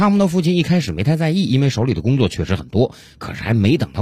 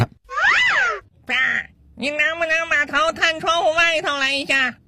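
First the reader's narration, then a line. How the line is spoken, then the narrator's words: Child shouting. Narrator (Chinese): 楼下自己的小儿子在大声喊他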